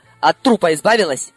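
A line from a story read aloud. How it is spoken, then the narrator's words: Stern question. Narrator (Russian): Он был суров и строго спросил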